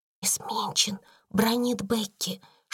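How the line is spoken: Whisper. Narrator (Russian): шепнула она

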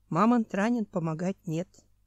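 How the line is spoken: Sad. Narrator (Russian): печально сказал Хью

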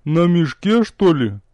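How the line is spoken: Ghostly snort. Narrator (Russian): хмыкнул призрак

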